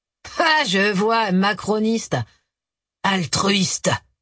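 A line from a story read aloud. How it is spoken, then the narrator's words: Dry clarification. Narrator (French): précisa sèchement Joseph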